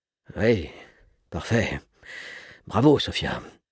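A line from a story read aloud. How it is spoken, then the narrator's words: Mumbling. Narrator (French): marmonna Gontran Pellepoire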